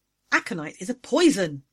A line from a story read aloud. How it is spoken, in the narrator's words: I blurted